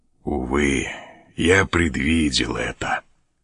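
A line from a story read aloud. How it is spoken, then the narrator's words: Sorrowful whisper. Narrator (Russian): горестно прошептал он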